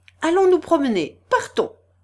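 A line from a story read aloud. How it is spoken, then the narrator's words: Shout. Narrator (French): cria Adélaïde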